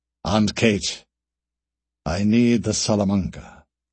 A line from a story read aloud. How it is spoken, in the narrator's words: said Alastair